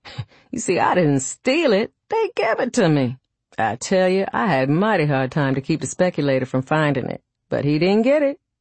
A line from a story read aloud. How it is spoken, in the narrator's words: With a low chuckling laugh, he added